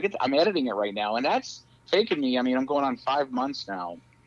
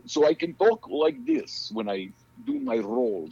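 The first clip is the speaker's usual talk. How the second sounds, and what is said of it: Put-on Russian accent. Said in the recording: “I got to work on my Russian accent”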